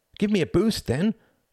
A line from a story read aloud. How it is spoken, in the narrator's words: cried Tom